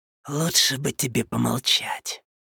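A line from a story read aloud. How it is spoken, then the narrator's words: Hissing. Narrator (Russian): прошипел одноглазый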